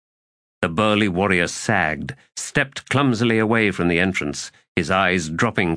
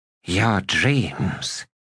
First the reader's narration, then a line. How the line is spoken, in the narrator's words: he whispered